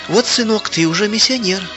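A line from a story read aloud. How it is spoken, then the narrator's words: Joyful mother. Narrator (Russian): радостно сказала мама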